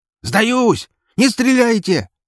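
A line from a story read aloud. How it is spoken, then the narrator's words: Frantic scream. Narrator (Russian): истошно заорал Леха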